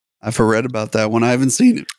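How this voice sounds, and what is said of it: Voice cracks suddenly higher. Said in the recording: “Did your voice just crack there ... my voice just went up like seven octaves for a second there.”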